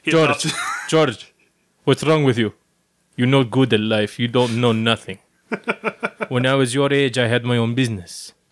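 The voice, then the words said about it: Impression of speaker's father. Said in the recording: “every time ... talks about his father, he can't help but talk like his father ... you do a great impression of your dad”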